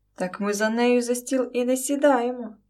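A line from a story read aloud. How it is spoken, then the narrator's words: Sudden sarcastic exclamation. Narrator (Ukrainian): зненацька яхидно вигукнув майбутній зять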